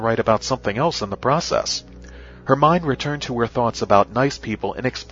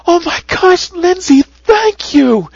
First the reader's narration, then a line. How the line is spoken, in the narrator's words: She cried